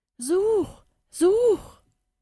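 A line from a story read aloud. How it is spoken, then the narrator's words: Mysterious voice calling. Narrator (German): rief die geheimnisvolle Stimme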